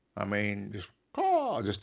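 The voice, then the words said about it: Bad imitation of a crow caw. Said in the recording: “heard a crow? ... I know that's a bad imitation, but just it's so shrilling”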